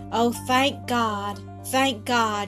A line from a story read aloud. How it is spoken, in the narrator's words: she cried